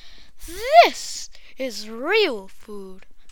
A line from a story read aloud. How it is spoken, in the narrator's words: cried the town mouse